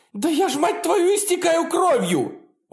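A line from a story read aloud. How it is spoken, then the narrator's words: Full-throated scream. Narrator (Russian): уже во всю глотку кричала Мия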